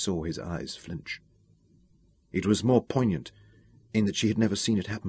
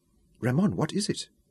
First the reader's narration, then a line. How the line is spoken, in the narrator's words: she asked